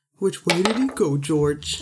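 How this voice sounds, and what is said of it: Dumb cartoony character voice. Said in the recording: “dumb cartoony it was like dumb guy character voice. Kind of like this.”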